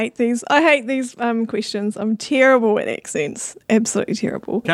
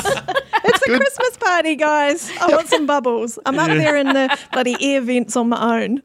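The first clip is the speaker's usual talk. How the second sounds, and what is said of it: Poor put-on German accent. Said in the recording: “Even worse German accent than I did.”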